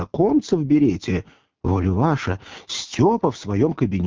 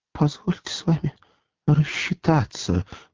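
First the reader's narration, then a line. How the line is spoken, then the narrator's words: Crushed whimpering. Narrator (Russian): проскулил убитый Степа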